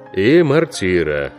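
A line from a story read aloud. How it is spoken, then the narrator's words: Gloomy. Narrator (Russian): мрачно сказал капитан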